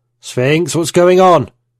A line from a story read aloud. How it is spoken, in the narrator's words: I shouted to the AI